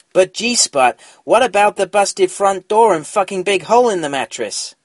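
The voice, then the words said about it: Imitated voice, East Coast accent. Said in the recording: “my impression ... Probably sounded more East Coast”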